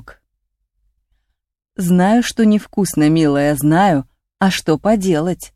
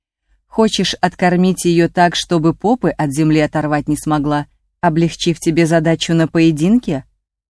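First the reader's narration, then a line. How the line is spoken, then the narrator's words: Stern question. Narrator (Russian): строго спросила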